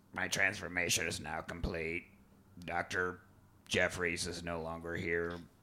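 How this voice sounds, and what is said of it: Creepy character voice. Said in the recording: “full-on creepy voice.”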